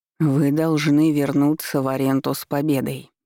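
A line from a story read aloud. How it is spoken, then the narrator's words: Icy tone. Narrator (Russian): ледяным тоном произнёс Мален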